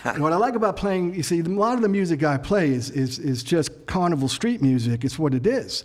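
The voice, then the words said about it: Brooklyn accent. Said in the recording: “the language of Brooklyn ... the way we spoke growing up ... maybe a little heavier of an accent ... It's identifiable, for sure. It's solid”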